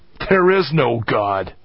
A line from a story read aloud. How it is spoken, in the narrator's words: spat out